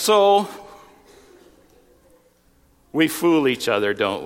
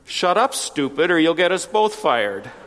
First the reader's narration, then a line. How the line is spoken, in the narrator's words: Immediately, the lion, in an undertone, said